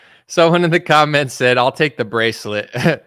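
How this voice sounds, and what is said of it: Usual voice. Nothing is said of it.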